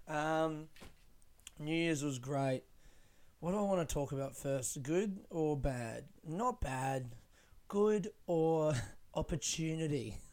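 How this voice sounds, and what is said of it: Tired, badly worn-out voice. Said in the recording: “I feel very tired. Listen to my voice. My voice is gone. ... my voice is really trashed, isn't it?”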